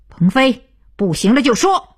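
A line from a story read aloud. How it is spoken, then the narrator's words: Loud. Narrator (Chinese): 徐东福飞转着大声道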